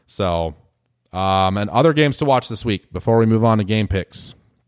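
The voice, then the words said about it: Hoarse, strained voice. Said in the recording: “I just get all worked up and now I'm losing my voice.”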